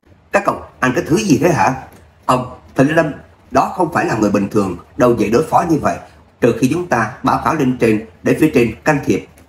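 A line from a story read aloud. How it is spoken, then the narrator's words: Scolding shout. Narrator (Vietnamese): quát mắng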